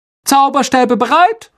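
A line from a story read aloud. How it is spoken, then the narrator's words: Calling out. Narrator (German): rief Lockhart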